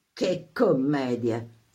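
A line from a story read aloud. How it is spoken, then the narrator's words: Furious hiss through teeth. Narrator (Italian): sibilò Canfa a denti stretti, il viso illividito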